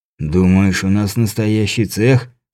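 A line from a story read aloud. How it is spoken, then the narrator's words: Snorting man. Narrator (Russian): фыркнул башмачник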